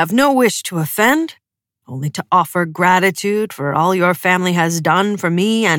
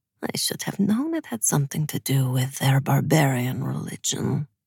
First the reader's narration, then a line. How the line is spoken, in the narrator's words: the apparat murmured in Ravkin